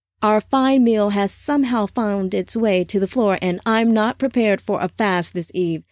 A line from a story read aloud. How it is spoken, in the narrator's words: Samjaza said with a laugh